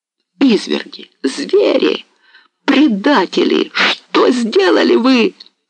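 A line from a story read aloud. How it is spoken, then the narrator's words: Wild cry. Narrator (Russian): вскрикнул дико Дорошенко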